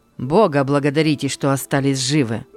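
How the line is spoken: Angry. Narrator (Russian): сказал сердито Лусио

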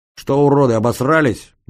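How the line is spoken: Loud yelling. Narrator (Russian): громко заорал я

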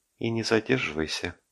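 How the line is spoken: Gentle. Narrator (Russian): сказала ласково

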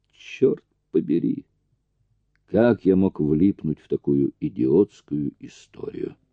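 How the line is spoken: Mutter. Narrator (Russian): пробормотал он

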